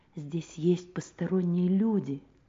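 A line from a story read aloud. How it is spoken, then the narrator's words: Whisper. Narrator (Russian): шепнул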